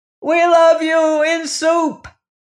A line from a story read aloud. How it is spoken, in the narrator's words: they yelled